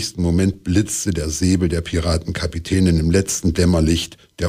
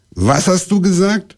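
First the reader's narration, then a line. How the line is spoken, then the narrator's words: Stern question. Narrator (German): fragte sie streng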